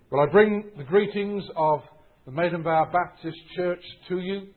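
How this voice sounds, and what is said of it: English accent. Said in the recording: “an English accent ... We have very different accents”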